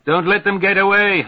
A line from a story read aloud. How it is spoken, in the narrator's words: Haftung hollers